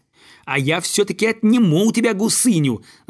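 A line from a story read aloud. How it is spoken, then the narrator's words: Yelling at full volume. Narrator (Russian): заорал он, что есть мочи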